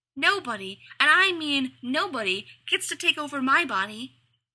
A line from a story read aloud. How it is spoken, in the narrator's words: shouted